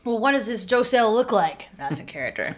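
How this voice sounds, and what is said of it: Character voice. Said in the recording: “You can tell that was ... character voice.”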